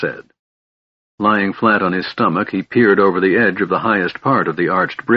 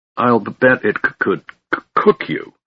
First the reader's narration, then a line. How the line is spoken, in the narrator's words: stuttered the terrified dwarf